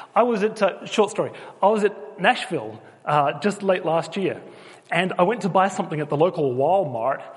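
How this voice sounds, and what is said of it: Australian accent. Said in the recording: “people think that I'm English ... she hears the accent ... I'm actually Australian, but I'm now living in England.”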